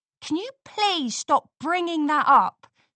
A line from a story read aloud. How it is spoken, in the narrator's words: Scootaloo said angrily